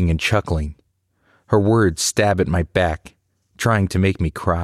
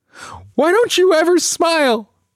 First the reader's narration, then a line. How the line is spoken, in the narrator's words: I scream the words, words coated in spikes of hurt, hoping to cut her